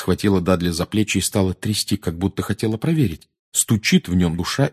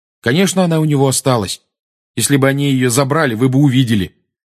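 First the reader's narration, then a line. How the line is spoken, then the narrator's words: Angry. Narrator (Russian): сердито сказал Гарри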